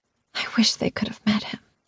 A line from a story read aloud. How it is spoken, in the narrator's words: I whispered